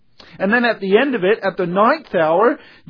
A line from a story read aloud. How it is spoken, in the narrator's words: Jesus cried with a loud voice, saying